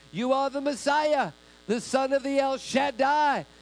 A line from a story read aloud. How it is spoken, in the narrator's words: they shouted while coming out